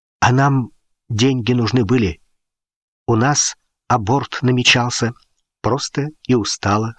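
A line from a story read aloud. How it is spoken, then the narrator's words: Plain. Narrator (Russian): сказал Сергей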